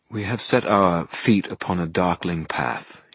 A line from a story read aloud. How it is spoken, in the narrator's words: he murmured